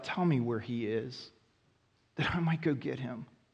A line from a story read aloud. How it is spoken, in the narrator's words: she cries out